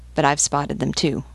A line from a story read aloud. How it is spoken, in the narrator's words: muttered Gakwal